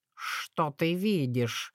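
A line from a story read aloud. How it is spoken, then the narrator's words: Plain question. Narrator (Russian): спросил кот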